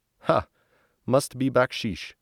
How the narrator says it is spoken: From behind the door, I hear loud laughter and Gio chuckling

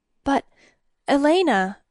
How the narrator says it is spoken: Uther stammered

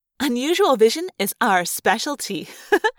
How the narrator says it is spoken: Rachel said with a careless laugh

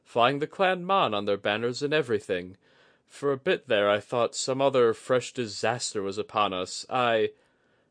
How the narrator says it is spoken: chuckled

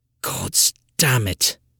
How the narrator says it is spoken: Montague muttered under his breath

